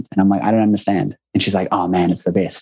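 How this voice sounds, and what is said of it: Strong New Zealand accent. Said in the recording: “apparently I have a strong one... New Zealand accents”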